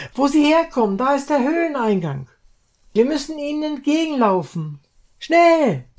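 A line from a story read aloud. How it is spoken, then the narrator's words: Shout. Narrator (German): Kinn schrie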